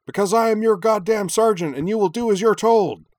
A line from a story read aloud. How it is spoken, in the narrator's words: Stacker barked in his not entirely serious bark